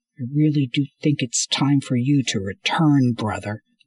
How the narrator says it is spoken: Rand said through clenched teeth

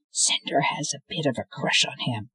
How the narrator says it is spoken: Thorn Stage whispered

